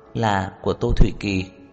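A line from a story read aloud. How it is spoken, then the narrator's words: Gentle. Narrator (Vietnamese): Khả Hinh dịu dàng nói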